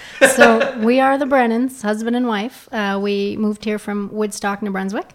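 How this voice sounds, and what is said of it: Canadian accent with Irish-like brogue. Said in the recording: “you both sound like you're from Ireland. It's like you have a brogue ... You have a Canadian brogue”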